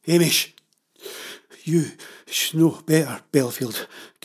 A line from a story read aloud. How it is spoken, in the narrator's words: gasped her father